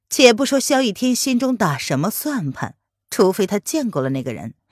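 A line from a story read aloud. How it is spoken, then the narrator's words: Flat, detached. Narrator (Chinese): 林渊开口淡淡的说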